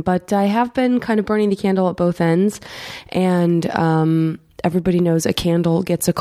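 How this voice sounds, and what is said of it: Nasal, congested sick voice. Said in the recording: “As you might be able to hear from my voice, I am a little under the weather, very nasal”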